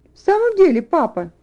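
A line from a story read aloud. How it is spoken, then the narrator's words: Exclaimed. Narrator (Russian): воскликнула Розамунда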